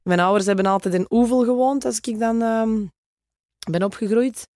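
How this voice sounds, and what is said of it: Juicy Flemish Kempen accent. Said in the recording (Dutch): “komt Natalia uit de Kempen? ... Maar het is ook een mooi sappig accent. Hè? Een van de mooiste”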